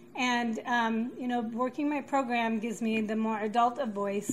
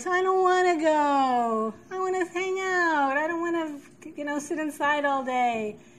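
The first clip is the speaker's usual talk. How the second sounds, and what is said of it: Whiny childlike voice. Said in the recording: “whiny kid who just wants whatever she wants ... there's that whiny voice.”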